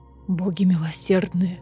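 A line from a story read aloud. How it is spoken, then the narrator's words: Breathless exhale. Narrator (Russian): выдохнул Азриэль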